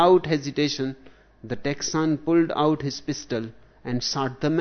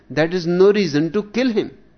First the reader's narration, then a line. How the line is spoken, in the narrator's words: cried the woman